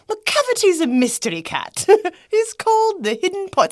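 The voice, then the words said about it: Really bad fake accent. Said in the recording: “With a really bad fake accent.”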